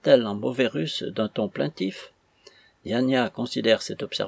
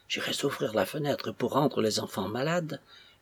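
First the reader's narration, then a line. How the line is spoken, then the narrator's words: Murmured. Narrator (French): murmure-t-elle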